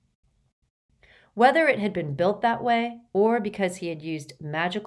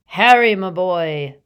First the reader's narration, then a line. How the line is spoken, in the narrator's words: boomed Slughorn